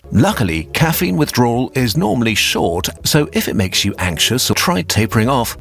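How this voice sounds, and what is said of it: British accent. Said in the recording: “Apparently, Your Brain on Caffeine has a British accent as well.”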